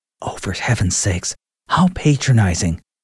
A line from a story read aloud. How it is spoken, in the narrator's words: Sage muttered